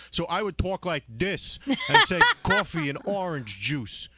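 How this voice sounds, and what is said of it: Exaggerated Long Island accent. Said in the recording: “I used to have a terrible, terrible accent when I first started on the radio ... He was so Long Island”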